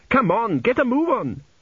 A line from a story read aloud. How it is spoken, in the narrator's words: she yelled